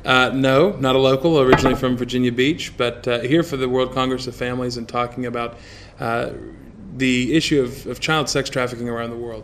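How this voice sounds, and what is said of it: American accent. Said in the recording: “with your American accent, you're not a local”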